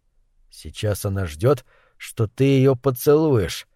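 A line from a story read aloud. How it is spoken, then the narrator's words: Whisper in ear, mad poet. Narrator (Russian): шепнул Кэлу в ухо безумный поэт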